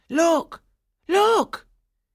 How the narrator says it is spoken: The shepherds cried out

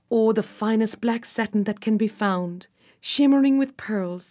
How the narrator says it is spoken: said Trembling dreamily

